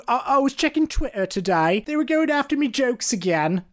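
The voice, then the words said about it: Imitates another person's voice. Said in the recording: “That's my Ricky Gervais impression.”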